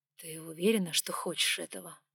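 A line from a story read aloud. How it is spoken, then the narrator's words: Breathy exhale. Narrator (Russian): выдохнул он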